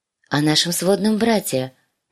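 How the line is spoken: Soft, precise correction. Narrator (Russian): поправилась Санса мягко и точно

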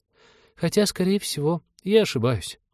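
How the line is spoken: Glum admission. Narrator (Russian): уныло признала Полина

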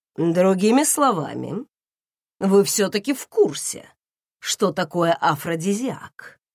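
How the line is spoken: Mocking. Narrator (Russian): насмешливо уточнил муж

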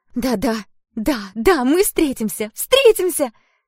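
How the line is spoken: Excited shouting while bouncing. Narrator (Russian): кричала Этель, прыгая на кровати

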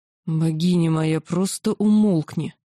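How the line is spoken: Sudden growl. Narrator (Russian): вдруг прорычал Кесарь

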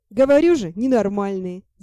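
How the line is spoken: Laughing. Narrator (Russian): засмеялся Ти

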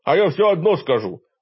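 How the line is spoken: Offended outburst. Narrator (Russian): обиженно взвился мой напарник

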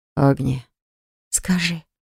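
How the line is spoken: Whisper. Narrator (Russian): шепнула я

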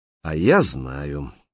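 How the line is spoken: Calm. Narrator (Russian): спокойно сказал Лис

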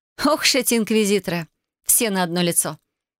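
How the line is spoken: Mocking. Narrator (Russian): Насмешливо произнесла Вайолет

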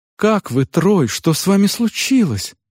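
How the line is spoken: Trembling question. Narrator (Russian): спросила меня Адельхейд дрожащим голосом

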